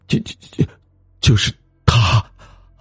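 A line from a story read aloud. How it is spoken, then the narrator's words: Frightened stammering. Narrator (Chinese): 秋生不禁吓了一跳，结结巴巴的说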